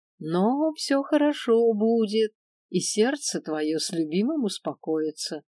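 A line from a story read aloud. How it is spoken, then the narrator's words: Concluding prophecy, seer. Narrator (Russian): Закончила наконец-таки свое предсказание провидица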